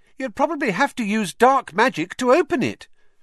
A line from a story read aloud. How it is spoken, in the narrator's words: piped up Parvati Patil